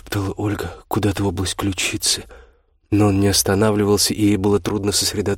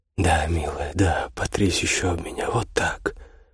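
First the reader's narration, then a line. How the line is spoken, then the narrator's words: Purring. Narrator (Russian): промурлыкал Аверин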